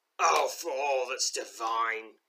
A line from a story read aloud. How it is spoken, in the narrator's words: grumbles Gritsmill